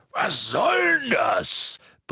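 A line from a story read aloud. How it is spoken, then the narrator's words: Roaring. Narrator (German): brüllte Hagrid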